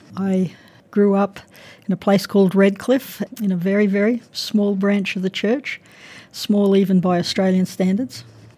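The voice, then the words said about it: Australian accent. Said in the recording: “you have a lovely accent ... I'm from Australia, Brisbane”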